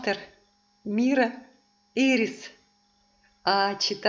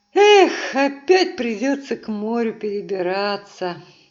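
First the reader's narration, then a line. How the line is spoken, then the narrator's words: Sighing. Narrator (Russian): вздохнула Герда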